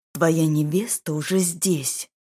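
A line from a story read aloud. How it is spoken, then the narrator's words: Growl. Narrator (Russian): прорычал он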